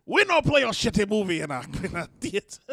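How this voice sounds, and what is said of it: Vague mixed foreign put-on accent. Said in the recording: “I don't know why they were African... No, that's not African... My accent's all over the place sometimes... they all convalesce into one foreigner accent”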